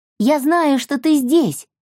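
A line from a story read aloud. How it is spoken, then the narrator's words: Shouting out. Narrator (Russian): выкрикнула она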